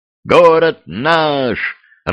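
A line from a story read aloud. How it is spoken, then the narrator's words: Joyful yell. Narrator (Russian): радостно завопил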